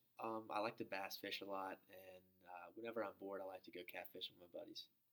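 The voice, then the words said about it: Southern drawl accent. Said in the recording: “your accent? Is it the Southern drawl ... the Southern accent”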